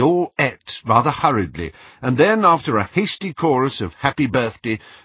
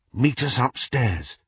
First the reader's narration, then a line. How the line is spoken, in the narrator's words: Harry whispered to Hermione